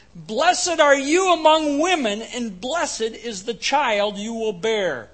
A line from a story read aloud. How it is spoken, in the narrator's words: In a loud voice, she exclaimed